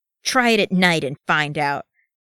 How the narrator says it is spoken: Gimli snarled

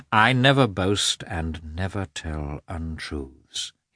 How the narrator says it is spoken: said softly, restraining his rising anger

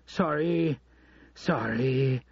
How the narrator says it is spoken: Dollar Bill said as he arrived, panting

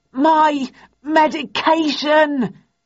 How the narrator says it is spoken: He closed his eyes for a moment, gathered his thoughts with a Herculean effort, then stammered

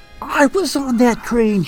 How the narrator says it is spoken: Jubilee shouted

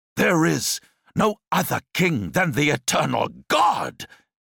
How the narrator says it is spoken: he cried

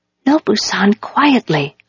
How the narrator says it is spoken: I whispered

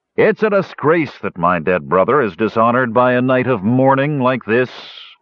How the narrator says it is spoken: Ruberick grumbled disdainfully

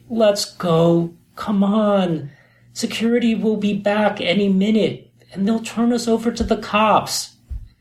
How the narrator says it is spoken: I pleaded

